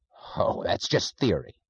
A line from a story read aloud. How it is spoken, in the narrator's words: snapped Mr